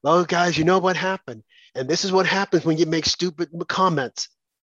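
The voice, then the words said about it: Imitates another person's voice. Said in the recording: “That was my best impersonation about Whoopi.”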